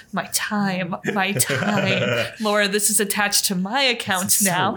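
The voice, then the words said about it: Imitates another person's voice. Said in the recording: “That's my Colin impression. ... That was a good impression.”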